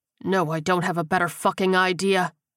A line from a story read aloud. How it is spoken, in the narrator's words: Becker growled